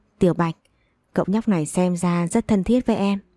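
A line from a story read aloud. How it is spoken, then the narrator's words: Smiling. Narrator (Vietnamese): mỉm cười lên tiếng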